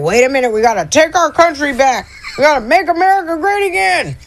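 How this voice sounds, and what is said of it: Mocking impression of a MAGA supporter. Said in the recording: “do a real good MAGA impression”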